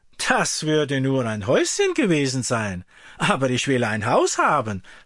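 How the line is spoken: Farmhand laughing. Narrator (German): lachte der Knecht

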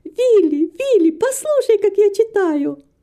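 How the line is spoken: Girl shouting. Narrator (Russian): девочка закричала

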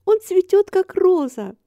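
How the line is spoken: Joyful proclamation. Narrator (Russian): радостно провозгласила Мэри

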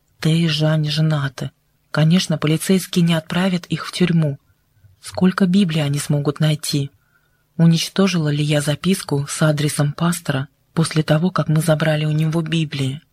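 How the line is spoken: Quick whisper. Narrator (Russian): Лин быстро прошептала

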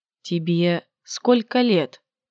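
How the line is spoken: Slight whisper. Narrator (Russian): Чуть шепотом заговорил

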